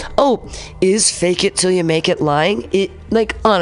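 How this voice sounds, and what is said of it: Usual voice. Nothing is said of it.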